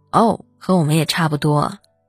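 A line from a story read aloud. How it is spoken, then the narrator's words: Flat, indifferent. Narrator (Chinese): 李健老师淡淡的说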